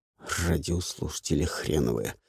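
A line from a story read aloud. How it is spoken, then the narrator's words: Grumbled. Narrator (Russian): буркнул Варен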